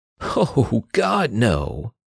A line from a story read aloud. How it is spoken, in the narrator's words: Perry laughed